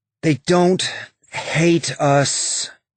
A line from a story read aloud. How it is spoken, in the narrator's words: Bobby said, her voice tired